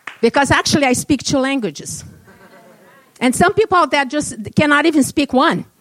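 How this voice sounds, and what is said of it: Non-native English accent. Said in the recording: “I'm not going to apologize for my accent... no apologies for my accent, and I never apologize for my accent, my English accent”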